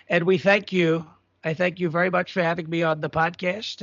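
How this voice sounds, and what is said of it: Donald Trump impression. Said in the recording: “the best impersonator of Donald Trump on the planet”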